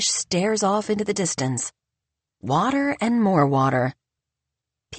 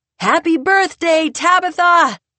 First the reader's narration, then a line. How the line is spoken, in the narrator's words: Harper cups her hands around her mouth and shouts